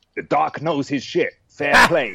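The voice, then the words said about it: Good put-on American accent. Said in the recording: “I've done an American accent there ... it was a very good one. I was impressed.”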